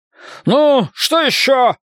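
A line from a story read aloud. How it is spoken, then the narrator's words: Shouted. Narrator (Russian): прокричал он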